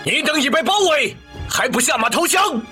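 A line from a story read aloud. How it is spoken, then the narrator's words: Stern shout. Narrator (Chinese): 曹参厉声喝道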